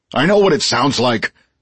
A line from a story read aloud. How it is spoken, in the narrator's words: snapped Burke